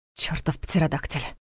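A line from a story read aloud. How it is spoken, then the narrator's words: Exhaled words. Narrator (Russian): выдохнул он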